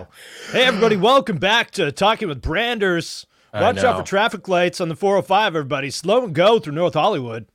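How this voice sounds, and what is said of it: Energetic morning-zoo radio DJ voice. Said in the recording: “I feel like I need to put on my Morning Zoo radio voice.”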